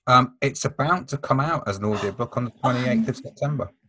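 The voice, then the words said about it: Nottingham English accent. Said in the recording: “my Nottingham accent, but with A Up Me Duck and all of that.”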